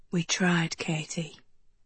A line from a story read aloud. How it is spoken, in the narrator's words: he whispered, the words nearly inaudible